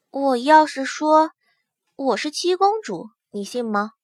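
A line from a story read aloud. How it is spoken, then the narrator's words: Hushed voice. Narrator (Chinese): 龙娇儿压低了声音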